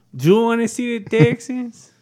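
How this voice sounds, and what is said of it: Bad put-on Spanish accent. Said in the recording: “Dude, that's bad... that's very bad... Still bad... saying the same thing in the same accent, it's still going to be bad... let's not do Spanish accents”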